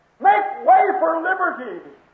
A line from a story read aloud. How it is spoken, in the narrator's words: he screamed